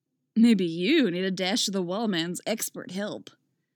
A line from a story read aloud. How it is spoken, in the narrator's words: Wally drawls, grinning